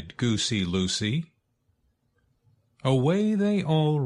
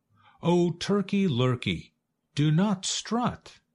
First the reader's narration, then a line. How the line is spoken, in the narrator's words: cried Goosey Lucy